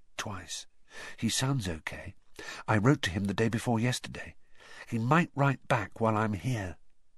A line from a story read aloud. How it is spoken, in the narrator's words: said Harry softly